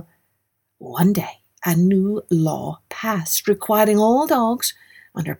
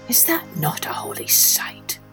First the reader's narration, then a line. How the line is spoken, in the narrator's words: he whispered